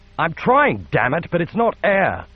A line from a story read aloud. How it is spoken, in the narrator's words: shouted back